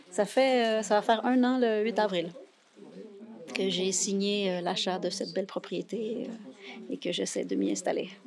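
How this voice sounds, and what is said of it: Slight North American French accent. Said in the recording (French): “vous avez un petit accent de l'autre côté de l'Atlantique”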